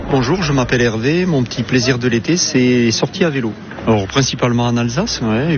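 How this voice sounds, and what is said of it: Slight regional French accent. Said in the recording (French): “il y avait un petit accent d'ailleurs”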